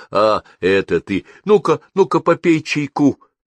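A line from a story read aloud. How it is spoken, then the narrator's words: Exclaiming. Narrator (Russian): воскликнула тетя Груша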